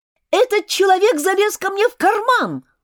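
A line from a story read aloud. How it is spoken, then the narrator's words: Shout. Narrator (Russian): кричал Джеймс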